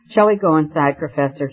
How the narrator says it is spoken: he said

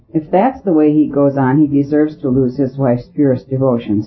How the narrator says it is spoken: said Mr

